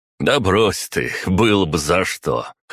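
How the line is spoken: Laughing chuckle. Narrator (Russian): хохотнул Ваня

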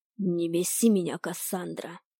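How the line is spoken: Growling. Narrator (Russian): прорычал Ирис

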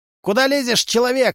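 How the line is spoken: Bark. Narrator (Russian): рявкнул Тришка

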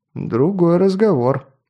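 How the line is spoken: Grumbled. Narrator (Russian): буркнул Маст

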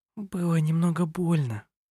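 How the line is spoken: Soft, smiling. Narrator (Russian): мягко улыбнулась

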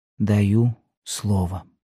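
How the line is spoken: Solemn answer. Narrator (Russian): отвечала Елена торжественно

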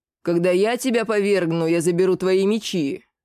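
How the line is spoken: Growled reply. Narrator (Russian): рыкнул в ответ

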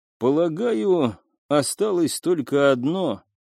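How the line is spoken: Gloomy male voice. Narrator (Russian): мрачно проговорил он

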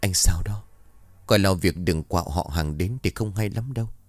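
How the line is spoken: Soft gentle voice. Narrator (Vietnamese): Lan nhỏ nhẹ

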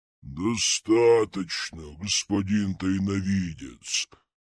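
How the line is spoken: Growling. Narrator (Russian): прорычала маска

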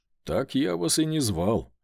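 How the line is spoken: Scoffing. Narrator (Russian): хмыкнул я

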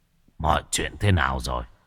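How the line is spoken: Hoarse. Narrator (Vietnamese): Sát tâm cất giọng khàn khàn nói

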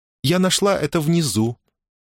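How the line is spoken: Innocent little voice. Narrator (Russian): невинным голоском сообщила она

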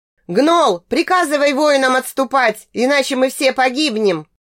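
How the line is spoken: Panicked shout, big man. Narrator (Russian): В панике закричал какой-то высокий, крупный, чернобородый мужик

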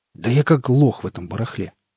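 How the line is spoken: Exhaled. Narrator (Russian): выдохнул он

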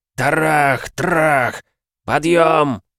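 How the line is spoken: Growled. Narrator (Russian): рыкнул Спиц

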